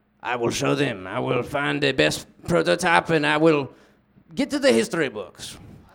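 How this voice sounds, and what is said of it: Bad put-on German accent. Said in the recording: “he was like me and he was doing a bad accent ... he was German, Austrian”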